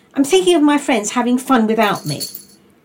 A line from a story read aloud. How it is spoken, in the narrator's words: blurted out Milo